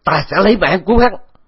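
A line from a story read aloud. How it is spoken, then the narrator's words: Anguished shout. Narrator (Vietnamese): Vũ Văn Hóa Cập gào lên một tiếng thảm thiết bi ai, hét lớn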